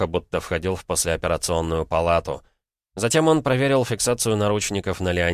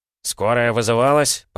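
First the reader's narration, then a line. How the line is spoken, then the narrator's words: Grumbling. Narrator (Russian): проворчал третий с повязкой НД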